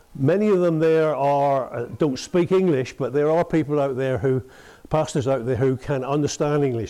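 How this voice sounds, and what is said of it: Speaks with a strong accent. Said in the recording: “They have difficulty understanding my accent at times. ... I cannot translate for you because of your accent.”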